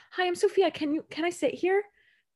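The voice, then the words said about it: Sweet put-on phone voice. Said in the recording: “you know how people use like their phone voice”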